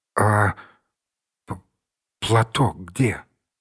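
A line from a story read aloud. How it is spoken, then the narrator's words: Stammering question. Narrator (Russian): заикаясь, спросил Данилов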